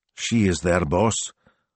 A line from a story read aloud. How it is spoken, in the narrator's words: asked flatly